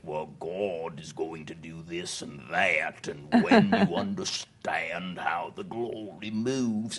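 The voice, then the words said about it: Imitated deep Cockney accent. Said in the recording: “Eddie had a deep Cockney accent.”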